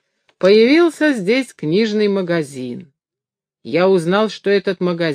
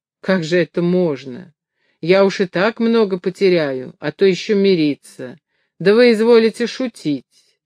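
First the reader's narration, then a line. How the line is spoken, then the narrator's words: Quiet laugh, mocking. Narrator (Russian): Горбун тихо засмеялся прямо ему в лицо и, пожимая плечами, сказал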